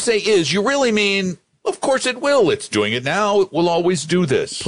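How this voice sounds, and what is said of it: Usual voice. Nothing is said of it.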